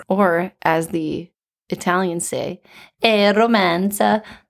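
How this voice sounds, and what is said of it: Impeccable put-on Italian accent. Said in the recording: “Wow, impeccable. It's like I'm in Italy. ... What a great accent.”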